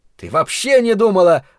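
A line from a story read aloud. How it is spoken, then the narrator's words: Angry interruption. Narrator (Russian): зло оборвал ее Ларри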